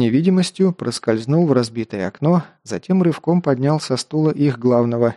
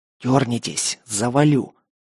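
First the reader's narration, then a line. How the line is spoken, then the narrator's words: Hissed threat. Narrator (Russian): зашипел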